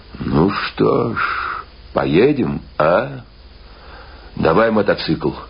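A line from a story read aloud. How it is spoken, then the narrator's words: Said thoughtfully. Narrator (Russian): Он задумчиво сказал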